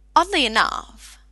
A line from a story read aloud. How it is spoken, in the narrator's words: the doctor said playfully